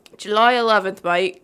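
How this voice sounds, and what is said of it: Attempted British accent sounding Australian. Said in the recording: “Should I do this in a British accent? ... I can't do British accents. ... You sounded Australian there.”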